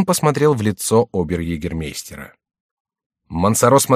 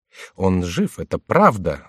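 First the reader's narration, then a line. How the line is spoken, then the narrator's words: Plain. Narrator (Russian): сказал он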